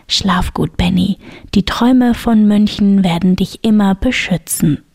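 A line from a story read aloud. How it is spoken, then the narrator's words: Whisper. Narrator (German): Norbert flüsterte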